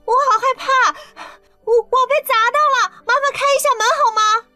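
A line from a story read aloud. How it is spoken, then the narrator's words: Feigned frightened cry. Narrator (Chinese): 刘亚楠趁机叫了出来，装作被惊吓到的样子，喊着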